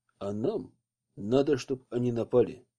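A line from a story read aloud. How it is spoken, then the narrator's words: Quiet. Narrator (Russian): тихо сказал ему Алексей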